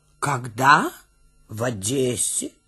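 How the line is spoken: Calm reply. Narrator (Russian): спокойно отвечает Гуськин

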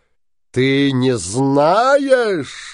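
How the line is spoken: Shouted. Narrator (Russian): закричал Синяя Борода

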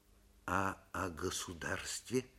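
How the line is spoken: Quiet question. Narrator (Russian): тихо спросил Светличный

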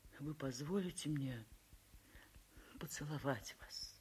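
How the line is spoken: Trembling voice. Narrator (Russian): весь дрожа, трепещущим голосом спросил

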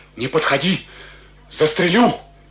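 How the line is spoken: Muffled trembling voice. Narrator (Russian): говорил глухим, дрожащим голосом

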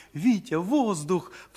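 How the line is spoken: Sudden cry. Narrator (Russian): вскрикнула Даша

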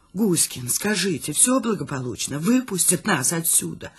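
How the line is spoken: Whispered question. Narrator (Russian): Шепотом спрашиваю я

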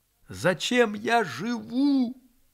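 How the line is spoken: Loud. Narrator (Russian): громко сказал он

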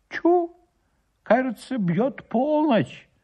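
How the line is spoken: Exclaimed. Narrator (Russian): воскликнул староста

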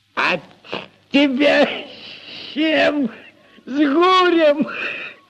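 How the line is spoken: Loud guffaw. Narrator (Russian): Прохор захохотал

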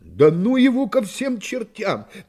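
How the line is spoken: Unrestrained exclamation. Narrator (Russian): не удержавшись, воскликнул Пенкроф

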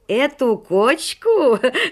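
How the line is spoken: Laughing loudly. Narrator (Russian): расхохотался Шелоник

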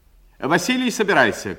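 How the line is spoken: Decisive shout. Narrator (Russian): крикнула решительным голосом

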